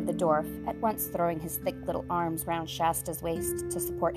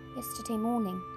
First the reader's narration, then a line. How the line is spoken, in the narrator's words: said Shasta weakly